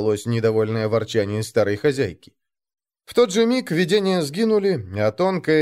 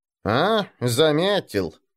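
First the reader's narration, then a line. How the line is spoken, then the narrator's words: Old woman's snort. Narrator (Russian): хмыкнула старуха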